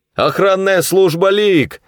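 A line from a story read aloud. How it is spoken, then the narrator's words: Shouting. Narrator (Russian): выкрикнул Коллинз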